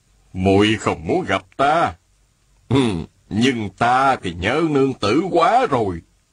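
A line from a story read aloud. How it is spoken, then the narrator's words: Smiling. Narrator (Vietnamese): An đại nhân mỉm cười, y nói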